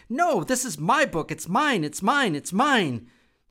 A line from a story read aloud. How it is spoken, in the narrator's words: Shrug wrapped his arms around the book and shouted